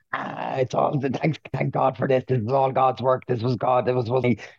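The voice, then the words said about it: Poor impression of another person's voice. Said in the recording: “that's a terrible Katie Taylor impression ... she does have a very husky voice”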